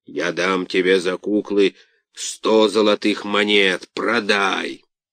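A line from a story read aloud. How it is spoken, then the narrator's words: Grumbling. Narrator (Russian): Карабас-Барабас, стоя в трех шагах позади Карло, проворчал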